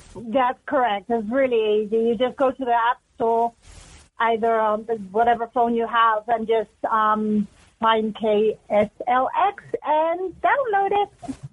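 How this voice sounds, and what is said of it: Unique mixed English-Mexican accent. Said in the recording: “you have a unique accent for Snowflake ... That's a very unique accent ... I'm half English, half Mexican”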